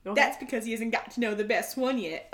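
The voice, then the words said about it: Put-on accent, rough imitation. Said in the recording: “Oh, that's a horrible accent. ... No, I thought that was decent.”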